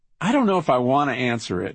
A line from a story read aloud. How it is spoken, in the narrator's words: he said with a laugh